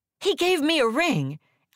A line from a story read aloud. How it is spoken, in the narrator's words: I yelled to my sister